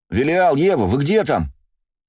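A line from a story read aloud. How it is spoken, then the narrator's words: Shouting from a distance. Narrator (Russian): закричал Бельфигор с моста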